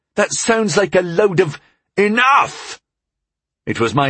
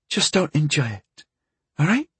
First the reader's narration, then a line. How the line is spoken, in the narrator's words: she whispered through her tears